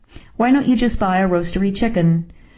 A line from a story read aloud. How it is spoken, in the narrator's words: I blurted